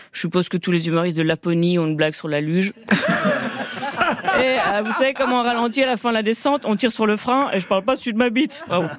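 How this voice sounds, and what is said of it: Imitates a typical stand-up comedian. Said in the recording (French): “C'est mon imitation de tous les humoristes blancs.”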